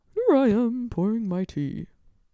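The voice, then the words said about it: Gandalf-style old wizard voice. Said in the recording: “your inner monologue is just Gandalf speaking ... that wasn't a bad impersonation. I'll be honest, it's pretty good.”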